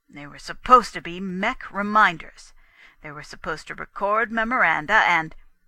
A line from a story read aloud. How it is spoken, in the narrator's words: Gusterson began in a kind of confused horror